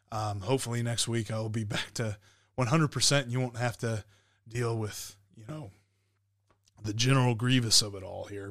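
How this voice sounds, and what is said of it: Rough, strained voice. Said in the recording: “my voice is a little bit rough”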